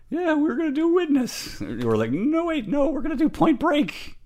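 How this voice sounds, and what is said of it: Imitates another person's voice. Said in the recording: “that's a terrible impersonation of me. It was terrible ... It sounds just like you.”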